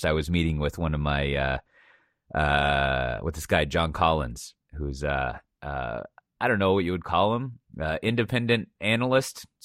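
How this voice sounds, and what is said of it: Hoarse voice. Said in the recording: “my voice is is hoarse.”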